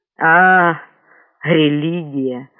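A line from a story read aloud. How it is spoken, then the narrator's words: Dull drawl. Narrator (Russian): уныло протянул один из секретарей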